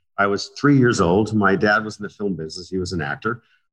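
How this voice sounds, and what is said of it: American accent. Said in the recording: “I sound American.”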